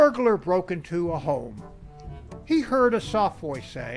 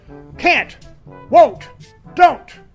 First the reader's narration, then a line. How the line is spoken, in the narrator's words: The pregnant woman's face contorts in pain as she shouts